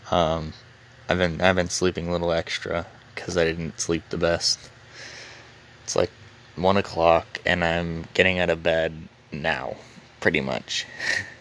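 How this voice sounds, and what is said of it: Rough, slightly hoarse voice. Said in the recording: “I'm sorry if my voice is a little rough today.”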